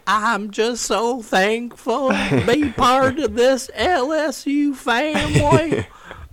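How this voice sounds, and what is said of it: Brian Kelly impression, put-on southern accent. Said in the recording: “Kind of like, remember Brian Kelly? ... When he got the LSU job.”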